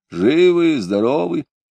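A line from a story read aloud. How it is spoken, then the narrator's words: Hoarse question. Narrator (Russian): спрашивал хрипло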